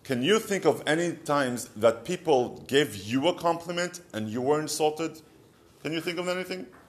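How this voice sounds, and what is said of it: Israeli accent. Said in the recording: “you have such a beautiful Israeli accent ... years of me trying to get rid of my Israeli accent”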